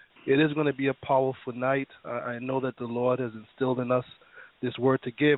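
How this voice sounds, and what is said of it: Raspy, slightly hoarse voice. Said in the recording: “I'm not in the best health today ... my voice is a little raspy”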